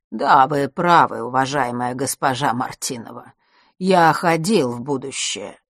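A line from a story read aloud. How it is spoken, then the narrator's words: Plain. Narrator (Russian): ответил Астариус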